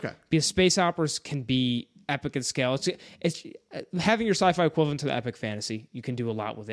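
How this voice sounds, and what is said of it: Usual voice. Nothing is said of it.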